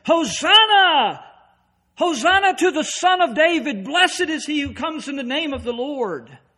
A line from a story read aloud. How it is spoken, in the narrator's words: the people who yelled said